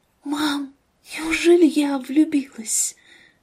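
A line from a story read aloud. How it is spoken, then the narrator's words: Whispered. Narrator (Russian): Ангелина прошептала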